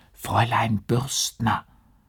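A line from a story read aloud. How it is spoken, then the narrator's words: Helpless urgent whisper. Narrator (German): In seiner Hilflosigkeit flüsterte er durch den Türspalt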